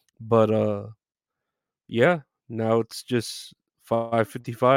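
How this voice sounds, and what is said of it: Usual voice. Nothing is said of it.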